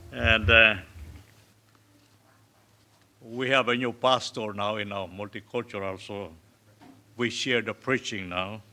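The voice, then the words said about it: Non-native English accent. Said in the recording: “I hope you will understand my uh, new accents”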